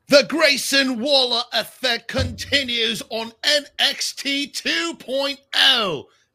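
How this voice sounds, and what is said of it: Poor put-on Australian accent. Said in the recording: “my worst Australian accent impression ever”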